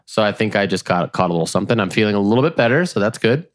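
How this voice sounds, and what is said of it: Congested, sick-sounding voice. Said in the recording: “Sound like you have some sort of respiratory.”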